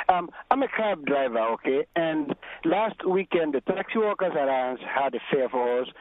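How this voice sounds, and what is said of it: Husky voice, has a cold. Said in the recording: “my voice is a little husky. I got some cold.”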